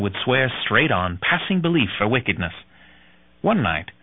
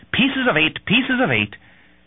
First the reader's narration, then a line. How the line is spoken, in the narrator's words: Captain Flint, who repeatedly shrieked